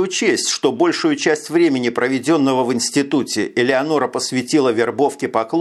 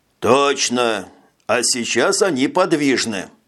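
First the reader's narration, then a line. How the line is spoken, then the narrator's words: Quiet. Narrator (Russian): тихо произнес Жак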